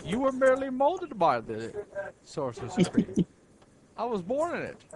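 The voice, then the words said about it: Attempted Christopher Walken impression. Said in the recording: “You sound like you're doing Christopher Walken, too. ... I tried to do a Christopher Walken impersonation. I can't do that.”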